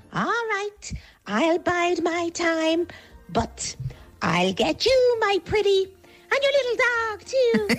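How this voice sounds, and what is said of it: Wicked Witch character voice. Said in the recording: “Excellent Wicked Witch impersonation”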